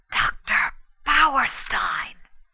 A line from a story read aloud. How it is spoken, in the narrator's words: I whispered